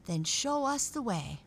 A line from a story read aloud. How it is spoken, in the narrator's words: Raggedy Ann cried